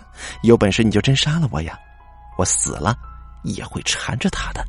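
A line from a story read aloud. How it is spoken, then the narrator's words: Cold sneering laugh. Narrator (Chinese): 叶太太的声音就冷笑着说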